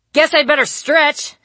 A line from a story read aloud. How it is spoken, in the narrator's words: I called out, to no one